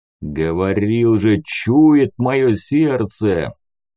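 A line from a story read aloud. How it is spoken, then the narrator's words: Deep booming voice. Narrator (Russian): пробасил здоровяк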